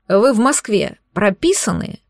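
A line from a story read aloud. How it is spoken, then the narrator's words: Slightly irritated repetition. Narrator (Russian): повторил страж порядка слегка раздраженным тоном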